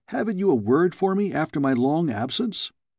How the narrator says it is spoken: I exclaimed

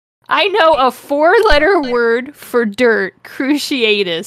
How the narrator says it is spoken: screamed Harry

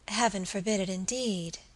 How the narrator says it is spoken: she murmured

